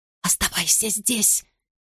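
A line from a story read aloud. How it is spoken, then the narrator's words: Whisper. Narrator (Russian): говорю я шепотом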